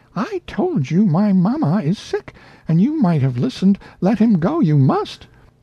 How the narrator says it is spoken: stamped her small foot indignantly and cried out

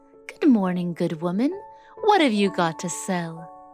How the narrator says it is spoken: Snow White said sweetly

